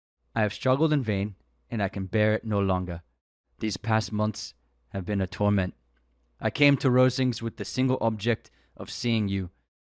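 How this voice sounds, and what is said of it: Attempted upper-class British accent. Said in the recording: “British accent, by the way. I just can't do one. ... it's it's high classing British.”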